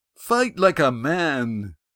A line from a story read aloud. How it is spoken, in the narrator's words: Yan shouted